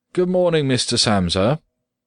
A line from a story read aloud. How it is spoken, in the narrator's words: the manager called out in a friendly way